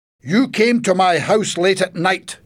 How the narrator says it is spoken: he shouted at Alex

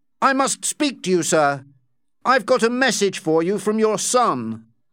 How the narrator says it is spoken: cried

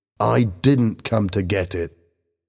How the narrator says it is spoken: said Bobby angrily

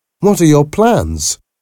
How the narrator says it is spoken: laughed

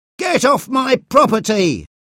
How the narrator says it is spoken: he shouted repeatedly

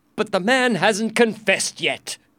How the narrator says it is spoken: the queen said angrily

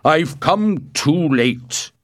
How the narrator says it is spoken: cried

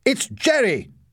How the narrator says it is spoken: shouted Larry

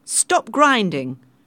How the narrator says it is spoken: shouted the captain

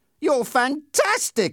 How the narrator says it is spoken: I exclaimed

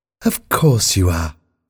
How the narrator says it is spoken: said the nurse kindly

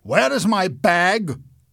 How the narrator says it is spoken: Eric shouted

